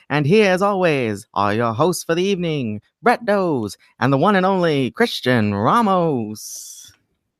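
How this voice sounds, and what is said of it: Old-time 1930s radio announcer voice. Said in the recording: “This is my radio voice circa 1939.”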